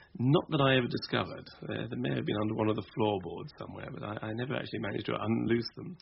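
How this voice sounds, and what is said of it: English home counties accent. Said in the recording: “this terrible home counties accent”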